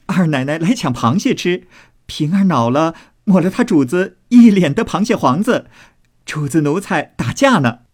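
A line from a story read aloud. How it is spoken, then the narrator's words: Loud laughing reply. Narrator (Chinese): 鸳鸯等忙高声笑回道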